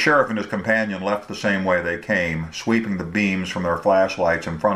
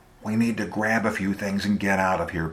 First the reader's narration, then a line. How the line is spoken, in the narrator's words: Beasley whispered